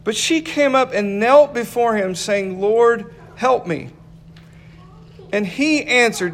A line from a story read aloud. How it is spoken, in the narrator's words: Jesus answered